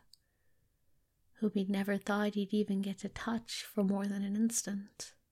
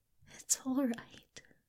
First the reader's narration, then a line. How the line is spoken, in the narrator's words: Crowley murmured